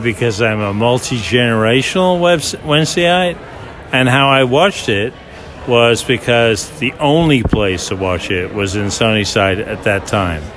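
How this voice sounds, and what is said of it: Thick American accent. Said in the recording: “I heard you saying that in a thick American accent”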